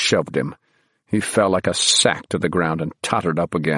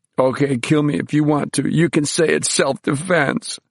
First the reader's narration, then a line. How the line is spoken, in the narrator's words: Bruno whined